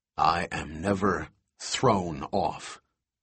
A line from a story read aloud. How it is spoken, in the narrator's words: Levine said coldly